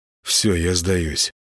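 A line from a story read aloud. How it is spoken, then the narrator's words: Faint, fading mumble. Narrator (Russian): промямлил Гена, чувствуя, что вот-вот потеряет сознание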